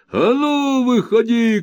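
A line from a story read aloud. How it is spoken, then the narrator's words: Shouting. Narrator (Russian): кричал Кэбмен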